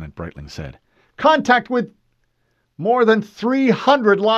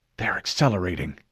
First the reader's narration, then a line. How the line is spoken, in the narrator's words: Lieutenant Streeter whispered